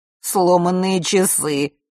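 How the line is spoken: Snorted. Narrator (Russian): фыркнул Фэш

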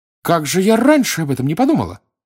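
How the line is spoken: Exclaimed. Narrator (Russian): воскликнула она

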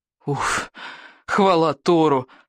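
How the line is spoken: Huge relieved sigh. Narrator (Russian): с громадным облегчением вздохнул Икинг

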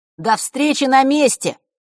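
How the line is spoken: Shout. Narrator (Russian): прокричал Фэш

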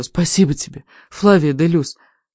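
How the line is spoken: Intimate whisper in ear. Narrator (Russian): прошептала она мне на ухо, как будто мы были лучшими друзьями

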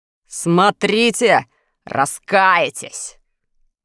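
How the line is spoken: Angry threat. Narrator (Russian): злобно пригрозил Джус

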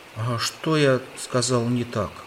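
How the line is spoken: Timid. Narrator (Russian): робко проговорил ослик, видя, как глубоко оскорблен Подлус

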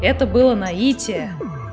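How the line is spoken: Joyful. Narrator (Russian): радостно сообщил Хемуль

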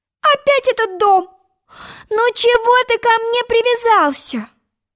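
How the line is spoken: Pleading. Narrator (Russian): взмолилась Алиса

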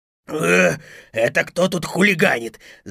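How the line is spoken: Growling wolf. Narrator (Russian): зарычал волк

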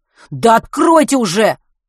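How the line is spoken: Angry shout. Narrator (Russian): зло выкрикнул Матвей

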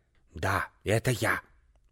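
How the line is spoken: Old woman hissing. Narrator (Russian): прошипела старая сеньора

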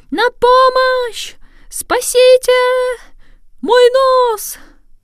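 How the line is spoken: Sudden panicked scream. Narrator (Russian): вдруг закричал не своим голосом

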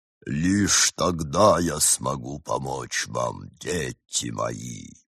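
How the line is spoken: Delayed, altered voice echo. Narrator (Russian): с задержкой в долю секунды, великая кофемолка повторяла измененным голосом

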